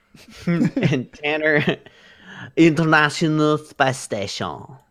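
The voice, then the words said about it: Put-on French accent. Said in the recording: “I don't know why I did that with a French accent.”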